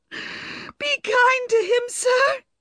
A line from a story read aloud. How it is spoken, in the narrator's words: she cried miserably